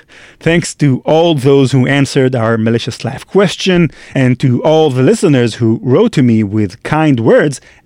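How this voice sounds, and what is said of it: Peculiar non-native accent. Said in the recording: “my peculiar accent”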